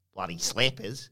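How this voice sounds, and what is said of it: Put-on Australian accent. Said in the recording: “Can you say slappers in an Australian accent?”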